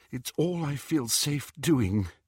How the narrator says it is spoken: said Hermione shakily

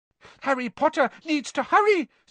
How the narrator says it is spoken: squeaked Dobby

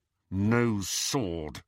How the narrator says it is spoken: said Harry through gritted teeth

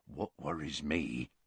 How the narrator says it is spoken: said Hagrid, lowering his voice

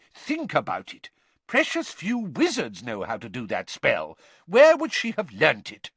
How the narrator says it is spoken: Weasley loudly

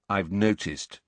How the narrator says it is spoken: said Harry coldly

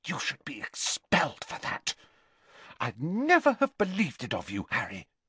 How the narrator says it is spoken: Bending low so that only Harry could hear her, she hissed

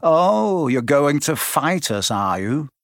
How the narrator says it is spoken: Malfoy sneered

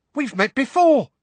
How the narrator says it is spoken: squeaked the excitable Diggle

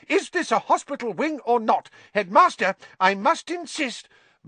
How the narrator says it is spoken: said Madame Pumphrey hysterically

